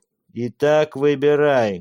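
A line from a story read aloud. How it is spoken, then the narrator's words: Loud shout. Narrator (Russian): громко крикнул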